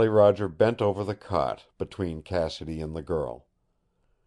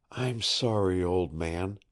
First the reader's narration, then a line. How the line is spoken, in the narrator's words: he whispered